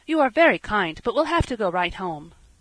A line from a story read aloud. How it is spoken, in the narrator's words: Dan said hastily